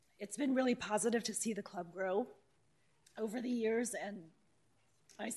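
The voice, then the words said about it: Strained, failing voice. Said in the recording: “I'm losing my voice all of a sudden.”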